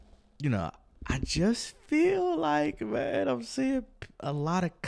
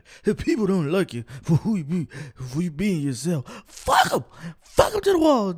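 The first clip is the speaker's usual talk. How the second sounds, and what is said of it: Bernie Mac impression. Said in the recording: “I'm trying to do a Bernie Mac impersonation. ... That was my Bernie Mac.”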